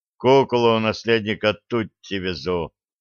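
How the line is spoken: Angry grumbling giant. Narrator (Russian): сердито буркнул гигант

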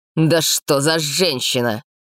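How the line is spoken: Barking bark. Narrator (Russian): рявкнул король

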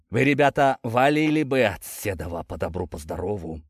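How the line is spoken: Deep bass old man. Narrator (Russian): пробасил самый авторитетный на вид седобородый старик, видимо, местный староста

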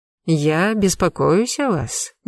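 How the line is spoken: Tender cooing in ear. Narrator (Russian): нежно на ушко проворковал он

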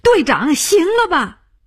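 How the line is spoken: Shouting. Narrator (Chinese): 他叫起来

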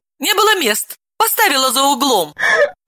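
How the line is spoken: Laughing. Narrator (Russian): Рассмеялась Далила

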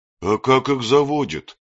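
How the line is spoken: Hesitant rumbling bass. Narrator (Russian): нерешительным басом пророкотала Брунгильда

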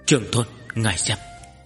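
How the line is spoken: Soft. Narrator (Vietnamese): Tần Mục khẽ nói

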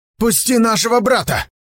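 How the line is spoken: Taller man shouting. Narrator (Russian): крикнул тот, что повыше

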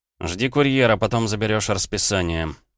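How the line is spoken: Through gritted teeth. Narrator (Russian): сквозь зубы проговорил Дима

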